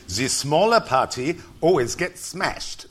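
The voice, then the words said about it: Attempted German accent. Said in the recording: “I'm going to attempt a bit of a German accent here”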